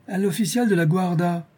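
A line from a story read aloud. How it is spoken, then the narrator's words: Exclaiming. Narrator (French): s'écria M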